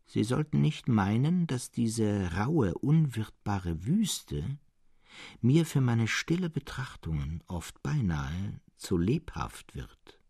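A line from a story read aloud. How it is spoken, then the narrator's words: Changed tone. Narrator (German): begann Serapion mit verändertem Ton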